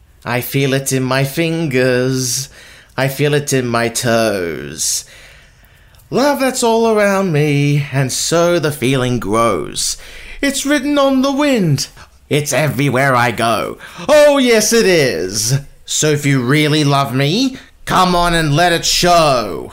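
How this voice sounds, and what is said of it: Menacing villain character voice. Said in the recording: “in your best villain voice”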